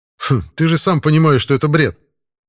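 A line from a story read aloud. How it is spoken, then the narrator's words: Skeptical snort. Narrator (Russian): хмыкнул я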